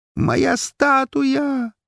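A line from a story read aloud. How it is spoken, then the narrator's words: Shouting. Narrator (Russian): закричала Афина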